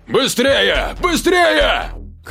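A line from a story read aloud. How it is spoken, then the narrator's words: Shout. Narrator (Russian): Кричал не пойми кому Дима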